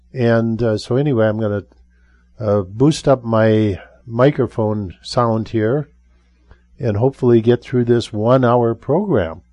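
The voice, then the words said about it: Strained, hoarse voice. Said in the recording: “my voice is having some issues here. I've had this nagging kind of cough thing for a few weeks”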